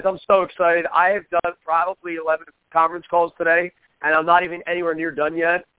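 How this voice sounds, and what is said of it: Hoarse, strained voice. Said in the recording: “my voice is shot. It's been shot for about 4 weeks now.”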